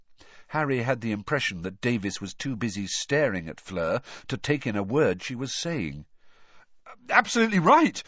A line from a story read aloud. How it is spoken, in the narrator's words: he said quickly